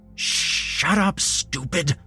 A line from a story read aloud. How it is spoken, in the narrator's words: Jeremy hissed